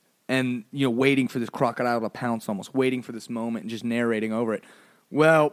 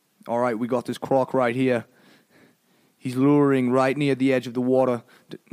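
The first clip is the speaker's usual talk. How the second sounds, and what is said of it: Poor put-on Australian accent. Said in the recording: “My Australian accent sucks, but I don't care. ... Oh, I went British?”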